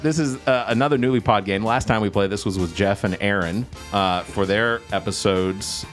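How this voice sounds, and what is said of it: Radio announcer voice. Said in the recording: “got his radio voice.”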